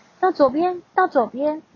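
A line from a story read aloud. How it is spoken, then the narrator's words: Loud shout. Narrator (Chinese): 我会大喊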